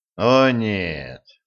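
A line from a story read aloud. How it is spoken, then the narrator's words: Breathed out. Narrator (Russian): выдохнул Кощей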